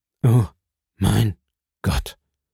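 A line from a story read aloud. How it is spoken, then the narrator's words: Devastated murmur. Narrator (German): murmelte Villefort, vernichtet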